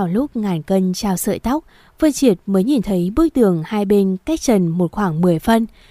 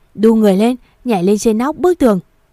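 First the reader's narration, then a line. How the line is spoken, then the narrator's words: Male shout. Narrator (Vietnamese): Anh ta hét lên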